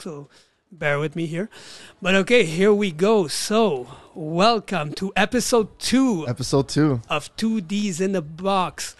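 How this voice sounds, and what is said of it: Rough, damaged voice. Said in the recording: “my voice is a little fucked”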